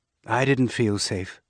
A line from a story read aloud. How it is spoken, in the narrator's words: Cynia said, but her voice was gentle